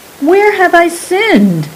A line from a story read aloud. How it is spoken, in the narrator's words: cried Saran